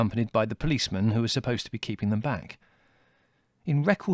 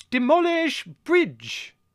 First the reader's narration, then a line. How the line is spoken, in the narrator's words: roared Colonel Velvet